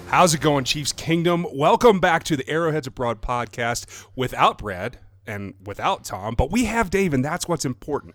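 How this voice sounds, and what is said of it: Non-English accent. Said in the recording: “I am your stand-in non-English accent voice”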